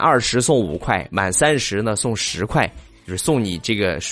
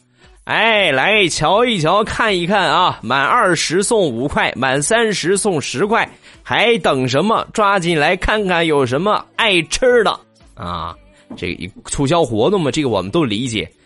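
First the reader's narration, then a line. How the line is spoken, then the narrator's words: Loud street-vendor hawking. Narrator (Chinese): 小贩儿大声的在那吆喝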